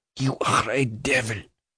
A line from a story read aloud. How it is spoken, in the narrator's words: Mademoiselle is hardly audible in straining through her teeth and lips the words